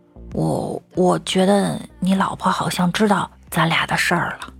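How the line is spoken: Low voice. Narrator (Chinese): 老王低声地说

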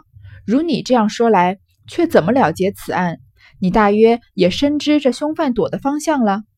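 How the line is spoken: Laughing question. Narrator (Chinese): 雨村便笑问门子道

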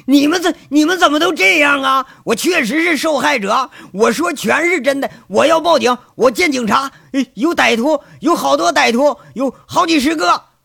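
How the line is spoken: Hysterical shouting. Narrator (Chinese): 金聚财歇斯底里喊着

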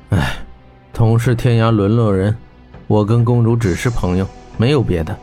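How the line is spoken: Sighing. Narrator (Chinese): 霍真叹气道

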